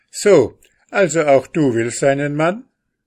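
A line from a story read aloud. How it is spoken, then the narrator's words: Call. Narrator (German): rief dieser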